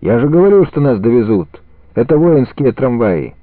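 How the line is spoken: Cheerful group clamor. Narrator (Russian): Сердюки весело загалдели

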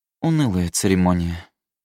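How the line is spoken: Sighing. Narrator (Russian): вздохнула королева

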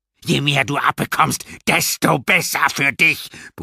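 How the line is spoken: Doctor's roar. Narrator (German): brüllte der Arzt

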